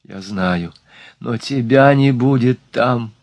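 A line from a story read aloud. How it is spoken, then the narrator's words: Moaning. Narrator (Russian): простонала она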